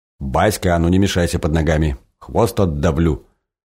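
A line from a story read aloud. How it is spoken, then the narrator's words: Mock-stern shout at puppy. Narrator (Russian): С шутливой строгостью прикрикнул на щенка хозяин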